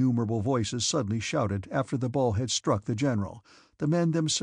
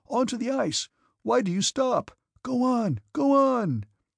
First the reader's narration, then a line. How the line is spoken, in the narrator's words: cries of horror were heard in the crowd